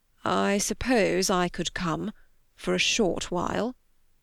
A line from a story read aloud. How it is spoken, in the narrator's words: Darcy said slowly, as if the words had to be pulled out of him